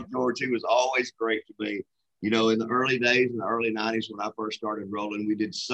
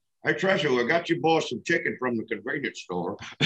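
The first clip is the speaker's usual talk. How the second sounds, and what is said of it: Imitates another person's voice. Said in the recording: “the George Moffat impersonation ... And it's so good every time.”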